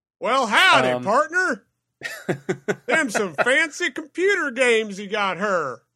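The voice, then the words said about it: Put-on Southern drawl. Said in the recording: “I'm putting on a southern drawl.”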